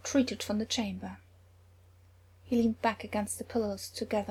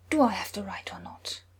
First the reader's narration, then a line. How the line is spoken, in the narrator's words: Loki hissed